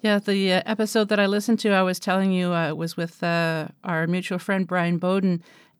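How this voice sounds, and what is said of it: Canadian accent. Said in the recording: “you thought I was from the South because of my Canadian accent ... I thought that your accent was more Minnesotan ... Midwestern”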